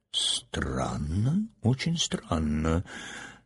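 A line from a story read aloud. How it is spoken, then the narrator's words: Muttering. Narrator (Russian): бормотал доктор Бориль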